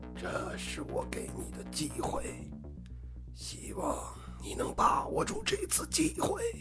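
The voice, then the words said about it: Sinister, bone-chilling villain voice. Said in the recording (Chinese): “用阴森刺骨的声音说道”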